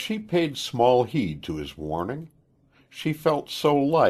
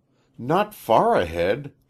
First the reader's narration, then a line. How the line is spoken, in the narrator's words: she exclaimed, a little bit alarmed